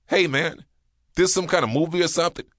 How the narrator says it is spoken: One fat woman shouting

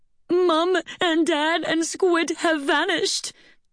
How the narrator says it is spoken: sobbed Shimlara

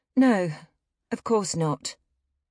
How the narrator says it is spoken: Honora stammered, embarrassed to have been caught doing just that

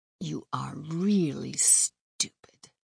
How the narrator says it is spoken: Kirsty mutters, soft but still audible

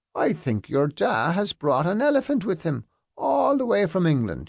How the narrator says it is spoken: she called out

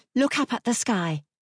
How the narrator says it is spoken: Margaret said in a quick voice

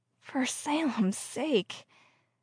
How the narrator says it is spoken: she muttered

